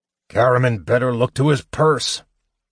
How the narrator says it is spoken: Flint grumbled

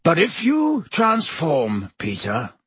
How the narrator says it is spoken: growled Black

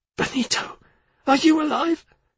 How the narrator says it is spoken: Tina croaked

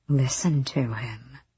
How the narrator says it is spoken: the demon prince hissed

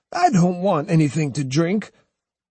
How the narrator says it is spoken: snapped

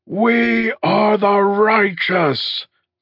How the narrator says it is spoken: they roared, and each and every one of them said it like they loved her

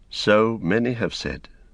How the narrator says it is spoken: she answered gravely

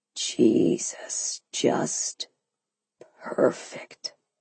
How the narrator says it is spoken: he whispered, so quietly I could barely hear him

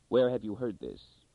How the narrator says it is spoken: Darrell said softly

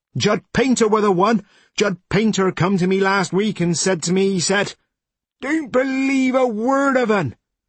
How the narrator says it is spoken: Judd said loudly

